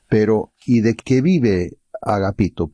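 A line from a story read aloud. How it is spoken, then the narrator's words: Plain. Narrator (Spanish): preguntó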